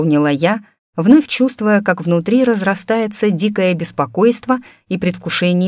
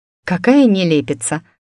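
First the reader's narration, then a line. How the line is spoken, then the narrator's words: Muttered. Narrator (Russian): пробормотала я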